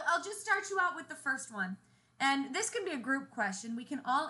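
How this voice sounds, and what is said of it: Usual voice. Nothing is said of it.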